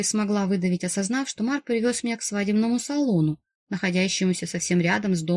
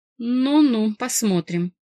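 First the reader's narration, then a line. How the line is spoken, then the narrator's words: Skeptical snort. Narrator (Russian): хмыкнул Марк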